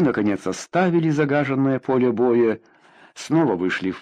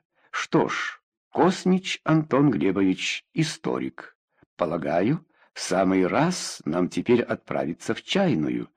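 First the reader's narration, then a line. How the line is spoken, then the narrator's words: Plain. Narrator (Russian): сказал Шаблыка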